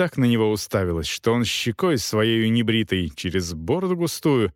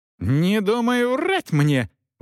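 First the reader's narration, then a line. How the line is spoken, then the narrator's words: Shrieking. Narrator (Russian): взвизгнула Агнес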